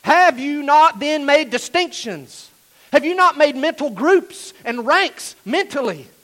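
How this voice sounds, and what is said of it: Shouting loudly. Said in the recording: “I'm shouting at you ... I'm shouting”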